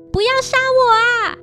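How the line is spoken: Screaming. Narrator (Chinese): 步美 大声尖叫，并说

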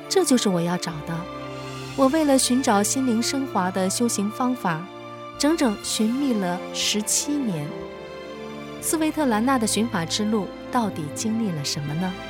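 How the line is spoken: Amazed exclamation. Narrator (Chinese): 他惊叹道

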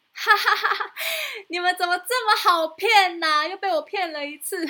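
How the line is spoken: Mocking laugh. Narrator (Chinese): 小男孩居然又笑说

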